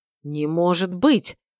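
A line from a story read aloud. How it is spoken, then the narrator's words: Breathed out in unison. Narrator (Russian): выдохнули мы одновременно с Гилом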